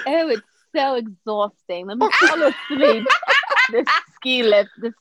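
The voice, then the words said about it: Put-on British accent. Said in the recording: “With their British accent,”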